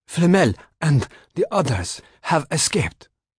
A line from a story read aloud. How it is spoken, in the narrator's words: he gasped